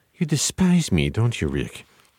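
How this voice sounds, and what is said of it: Peter Lorre impression. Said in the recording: “my Peter Lorre impression ... So that's my Peter Lorre ... That is really good.”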